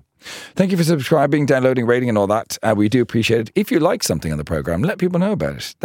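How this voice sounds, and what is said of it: Strained, sick-sounding voice. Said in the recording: “my voice sounds weird, it's because I've been shouting a lot, but also I'm suffering from some sort of human flu”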